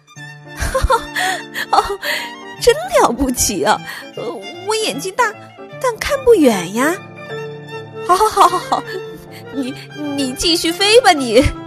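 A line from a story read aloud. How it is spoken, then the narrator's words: Cheerful, laughing. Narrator (Chinese): 兔子一点儿也没生气，笑嘻嘻的说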